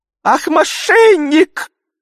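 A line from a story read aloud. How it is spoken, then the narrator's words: Squeaky voice. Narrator (Russian): Запищал другой голос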